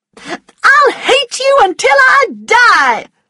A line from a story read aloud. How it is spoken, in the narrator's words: she shouted